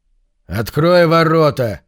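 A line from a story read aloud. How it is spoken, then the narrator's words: Barking. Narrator (Russian): рявкнул Конан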